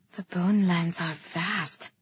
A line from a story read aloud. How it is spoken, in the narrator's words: I murmured